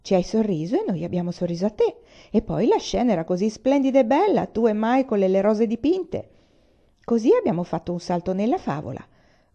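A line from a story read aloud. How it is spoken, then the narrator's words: Cheerful tone. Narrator (Italian): concluse in tono gaio Amor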